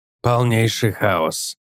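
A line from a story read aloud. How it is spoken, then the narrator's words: Grumbling. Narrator (Russian): проворчал Гик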